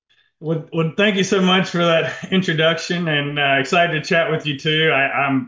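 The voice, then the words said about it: Southern American accent. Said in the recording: “a Southern man ... Love your accent.”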